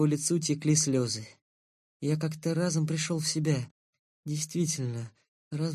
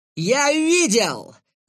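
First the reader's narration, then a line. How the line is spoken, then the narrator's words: Shouted. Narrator (Russian): закричал крылатый из другой пары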